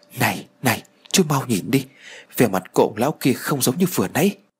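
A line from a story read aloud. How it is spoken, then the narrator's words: Frightened. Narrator (Vietnamese): tôi sợ hãi rồi nói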